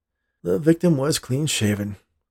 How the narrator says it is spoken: the policeman said with a sigh

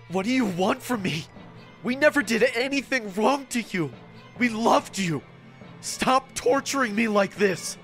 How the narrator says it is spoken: I asked in a gasping voice

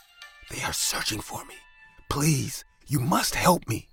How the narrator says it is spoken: said in a whispering voice

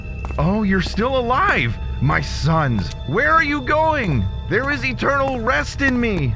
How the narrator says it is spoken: the meeting leader shouted

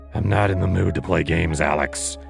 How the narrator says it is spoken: he growled

